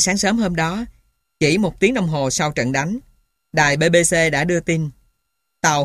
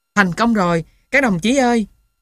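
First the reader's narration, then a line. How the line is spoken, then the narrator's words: Joyful cry, mouth full. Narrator (Vietnamese): anh vẫn chưa nuốt được, còn sung sướng kêu lên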